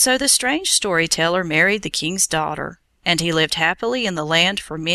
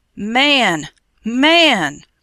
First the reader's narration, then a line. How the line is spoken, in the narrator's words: cried the king